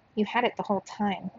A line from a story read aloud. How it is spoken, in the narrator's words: said quietly